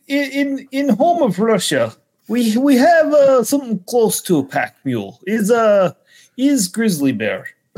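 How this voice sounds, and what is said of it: Put-on Russian accent. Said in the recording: “in your Russian accent”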